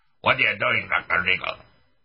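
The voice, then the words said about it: Put-on brogue, South African accent. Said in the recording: “With a brogue and South African accent.”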